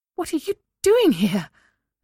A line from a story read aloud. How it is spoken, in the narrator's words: Elena blurted out